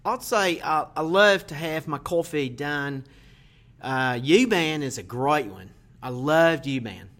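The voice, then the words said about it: Attempted Australian accent, sounds New York. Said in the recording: “using an Australian accent ... that's not Australian ... that's New York accent”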